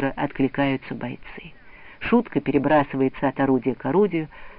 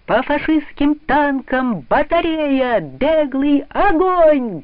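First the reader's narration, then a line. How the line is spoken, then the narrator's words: Loud military command. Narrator (Russian): громко командует комбат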